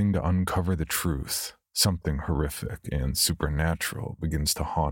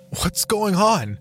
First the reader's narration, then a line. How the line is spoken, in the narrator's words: Doyle pleaded, growing afraid